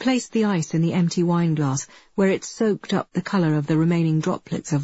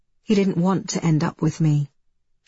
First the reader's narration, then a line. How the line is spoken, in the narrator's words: she said, her tone flat